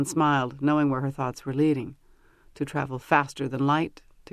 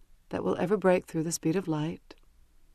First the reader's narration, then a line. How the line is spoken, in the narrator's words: she said wistfully